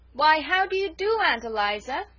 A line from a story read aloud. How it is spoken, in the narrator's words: said loudly